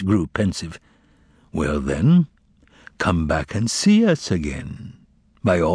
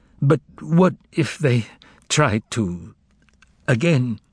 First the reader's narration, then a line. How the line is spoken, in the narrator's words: he said, stuttering